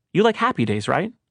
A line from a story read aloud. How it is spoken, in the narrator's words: I asked, happily